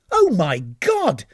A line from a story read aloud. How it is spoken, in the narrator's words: exclaimed the captain